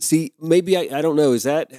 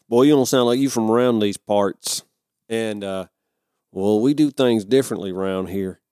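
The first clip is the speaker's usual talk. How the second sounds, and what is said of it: Put-on Southern accent. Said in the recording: “if you're a Southerner with an accent, are you insulted that I even did those two lines?”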